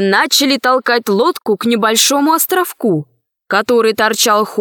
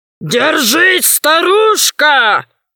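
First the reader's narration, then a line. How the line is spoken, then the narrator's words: Shouting. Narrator (Russian): кричали они ведьме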